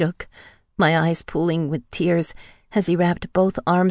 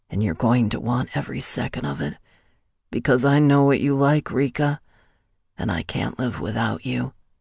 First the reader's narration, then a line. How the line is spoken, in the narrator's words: continued to whisper in my ear